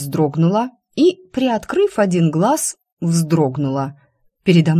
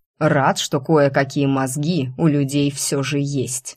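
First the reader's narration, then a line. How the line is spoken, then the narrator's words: Displeased hiss. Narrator (Russian): недовольно прошипел брюнет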